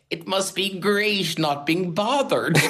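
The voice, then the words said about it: Put-on Cork accent. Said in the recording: “You remember a certain type of Cork voice there?”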